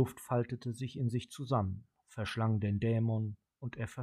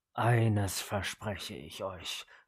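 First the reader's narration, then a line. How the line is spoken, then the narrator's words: Low demonic growl. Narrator (German): knurrte der Dämon leise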